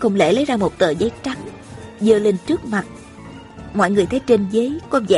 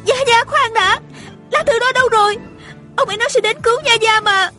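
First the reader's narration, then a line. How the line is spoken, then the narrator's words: Hurried, urgent cry. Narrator (Vietnamese): Tiêu Uyển Nhi vội la lên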